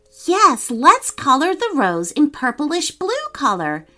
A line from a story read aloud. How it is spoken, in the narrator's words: exclaimed Mahnam